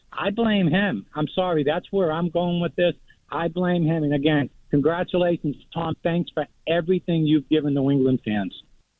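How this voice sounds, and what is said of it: Caller with a strong regional accent. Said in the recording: “Perfect Tom. All the way down to the accent”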